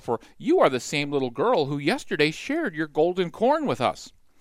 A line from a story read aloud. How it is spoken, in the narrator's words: chirped another sparrow